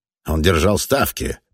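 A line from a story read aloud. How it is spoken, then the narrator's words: Grumbling loser. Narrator (Russian): проворчал один из проигравших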